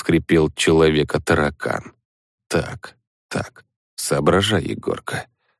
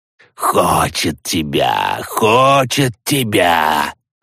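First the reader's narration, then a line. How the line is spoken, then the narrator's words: Hissing little ones. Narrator (Russian): Зашипели малыши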